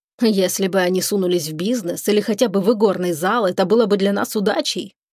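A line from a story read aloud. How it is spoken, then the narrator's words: Grumbling. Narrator (Russian): проворчал Шипров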